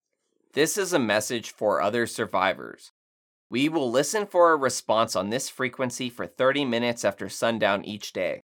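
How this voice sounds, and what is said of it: Exaggerated radio announcer voice. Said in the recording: “This is my radio voice. Radio voice!”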